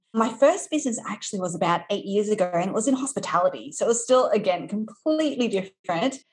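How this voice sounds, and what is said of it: Australian accent. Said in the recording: “You might be able to tell from my accent that I am from Australia.”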